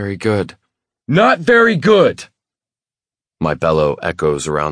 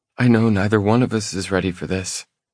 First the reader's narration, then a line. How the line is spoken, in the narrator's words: she mumbles